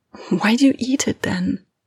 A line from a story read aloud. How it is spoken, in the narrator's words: Lena whispers